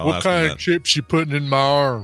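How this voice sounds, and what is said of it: Put-on Southern American accent. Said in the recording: “all of a sudden do I have a southern accent? ... we like to stereotype our southern accented folk”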